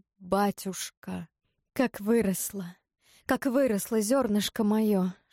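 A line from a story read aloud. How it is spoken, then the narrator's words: Tearful whisper. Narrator (Russian): шептал Кощей, шептал и как будто плакал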